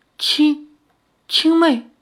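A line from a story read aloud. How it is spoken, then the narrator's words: Faint, distant voice. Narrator (Chinese): 巫王的声音有些渺茫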